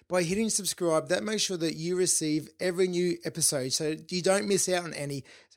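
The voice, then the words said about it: Slightly funny, failing voice. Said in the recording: “my voice sounds a bit funny, I think I'm losing my voice a bit”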